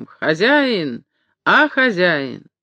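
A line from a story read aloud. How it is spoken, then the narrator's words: Heart-rending shout. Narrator (Russian): Каютин закричал раздирающим голосом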